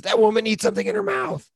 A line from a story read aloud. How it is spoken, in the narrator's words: Jason Sudeikis screams